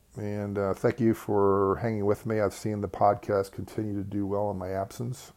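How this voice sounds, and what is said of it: Tired, worn-out voice. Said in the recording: “you can probably hear it in my voice that I'm a little bit beat up”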